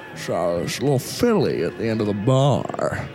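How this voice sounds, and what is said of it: Noticeable accent. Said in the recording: “I have to read through your accent.”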